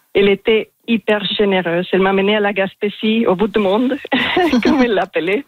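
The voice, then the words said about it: Strong foreign accent in French. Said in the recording (French): “Elle rigolait de mon français parce que j'ai un accent assez marqué ... Il est magnifique, cet accent”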